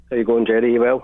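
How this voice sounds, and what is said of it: Scottish accent. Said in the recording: “Love the accent. What part of Scotland does that come from?”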